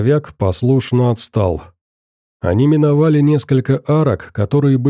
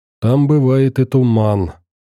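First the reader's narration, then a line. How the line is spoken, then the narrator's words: Accented speech. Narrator (Russian): произнесла она все с тем же акцентом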